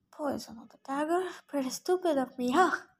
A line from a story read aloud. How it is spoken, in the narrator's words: she mumbled